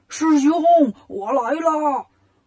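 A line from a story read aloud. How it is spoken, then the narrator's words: Shouting. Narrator (Chinese): 八戒喊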